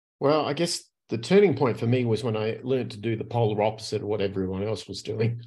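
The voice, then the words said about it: Australian accent. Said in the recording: “if my accent doesn't give it away, I'm originally from Australia”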